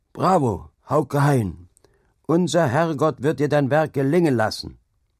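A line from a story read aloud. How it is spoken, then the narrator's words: Old man shouting loudly. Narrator (German): der alte Jewe Manners rief laut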